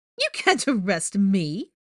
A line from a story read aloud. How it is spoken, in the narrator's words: she replied haughtily